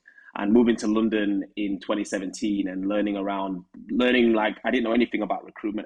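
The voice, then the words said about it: Huddersfield English accent. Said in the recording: “as you can tell from my accent, I'm from Huddersfield.”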